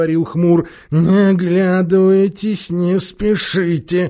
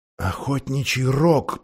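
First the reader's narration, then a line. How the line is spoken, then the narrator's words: Whispered. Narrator (Russian): прошептал Юстас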